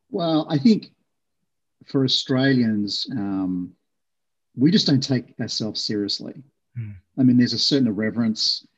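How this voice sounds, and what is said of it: Australian accent. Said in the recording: “you grew up in Australia. That's why you've got that unfair competitive advantage of your accent.”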